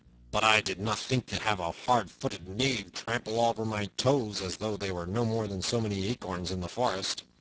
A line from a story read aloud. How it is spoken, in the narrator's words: grumbled the other